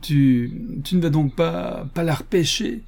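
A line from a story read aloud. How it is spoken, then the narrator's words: Stammering, then laughing. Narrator (French): bredouilla George avant de s'esclaffer de nouveau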